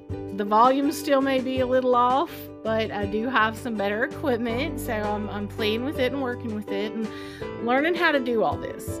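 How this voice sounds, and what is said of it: Slight Appalachian accent. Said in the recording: “use your true Appalachian speech. ... So you're gonna hear that a little bit in me now.”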